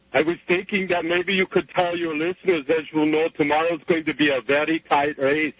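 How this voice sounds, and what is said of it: Arnold Schwarzenegger impression, accented voice. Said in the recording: “you've got an accent or something ... I would assume this is Arnold Schwarzenegger”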